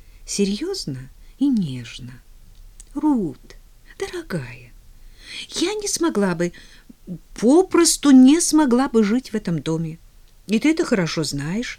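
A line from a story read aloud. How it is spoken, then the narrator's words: Soft. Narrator (Russian): добавила она мягко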